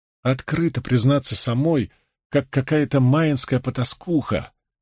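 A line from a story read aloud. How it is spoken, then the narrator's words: Deep sigh, then muttered. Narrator (Russian): она глубоко вздохнула и пробормотала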